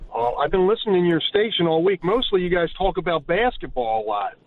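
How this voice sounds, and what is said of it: Philadelphia accent. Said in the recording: “You got to love that accent, from Philly.”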